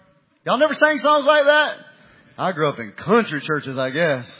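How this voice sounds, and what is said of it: Usual voice. Nothing is said of it.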